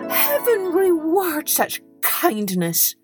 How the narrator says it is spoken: cried Hans

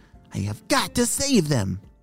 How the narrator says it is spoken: Paulio shouted

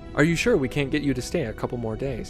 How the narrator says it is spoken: Julian asked

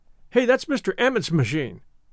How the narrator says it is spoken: said one boy sharply

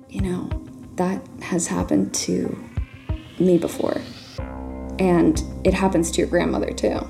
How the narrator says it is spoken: She whispered into the phone

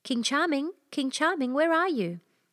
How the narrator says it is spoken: called out as loud as he could

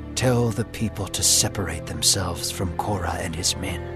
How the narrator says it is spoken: The Lord whispered in the ear of Moses

